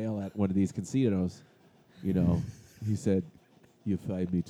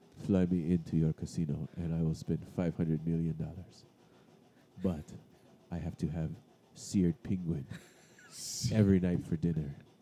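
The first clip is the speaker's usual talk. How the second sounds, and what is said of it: Put-on foreign accent, maybe Peruvian. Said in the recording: “I don't know what accent this is, but just go with it. ... Peruvian.”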